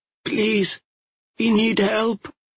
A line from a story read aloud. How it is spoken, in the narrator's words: she said, her voice choked and raspy